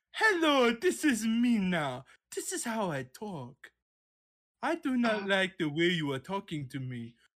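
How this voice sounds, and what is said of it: Put-on Romanian woman's accent. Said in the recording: “my Romanian woman accent”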